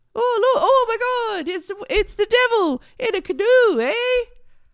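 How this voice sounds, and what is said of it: Put-on Canadian accent. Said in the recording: “I think my accent is great.”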